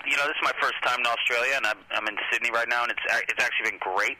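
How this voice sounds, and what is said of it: American accent. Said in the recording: “having an American accent ... I'm from like the Northeast, like Boston area”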